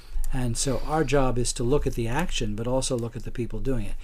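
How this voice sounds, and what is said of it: Non-local accent. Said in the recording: “from your accent, I'm guessing ... you're ... Not really that local.”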